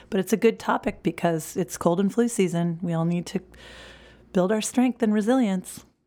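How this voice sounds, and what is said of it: Hoarse voice. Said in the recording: “my resilience has been put to the test this week by my voice ... I'm a little hoarse.”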